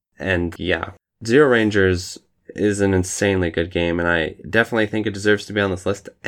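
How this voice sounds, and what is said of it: Hoarse, tired voice. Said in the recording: “My voice is getting really hoarse and tired”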